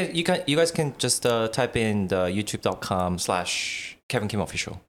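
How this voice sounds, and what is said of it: Usual voice. Nothing is said of it.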